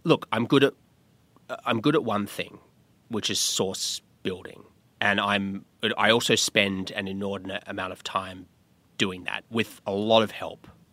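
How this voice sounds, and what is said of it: Australian accent. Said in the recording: “people love an Australian accent”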